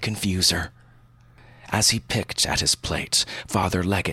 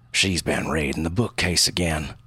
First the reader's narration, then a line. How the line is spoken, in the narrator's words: the bishop growled